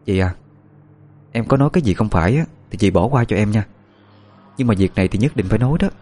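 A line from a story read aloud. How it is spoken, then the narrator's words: Hesitant. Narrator (Vietnamese): Ngập ngừng một lát, cô giáo mới mở lời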